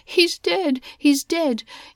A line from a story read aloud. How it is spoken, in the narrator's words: One woman wailed